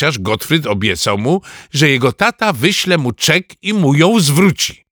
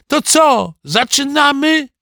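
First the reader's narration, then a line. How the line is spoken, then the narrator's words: Shouting. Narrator (Polish): krzyczał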